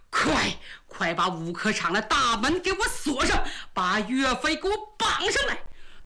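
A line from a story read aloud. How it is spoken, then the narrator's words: Through gritted teeth. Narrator (Chinese): 张邦昌一咬牙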